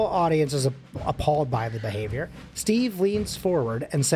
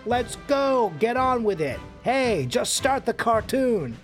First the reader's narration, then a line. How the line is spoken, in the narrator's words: the man yells